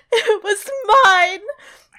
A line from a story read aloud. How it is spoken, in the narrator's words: Jane sobbed